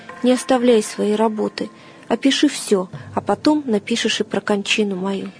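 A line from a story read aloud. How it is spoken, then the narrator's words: Quiet. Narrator (Russian): Мученик же тихо проговорил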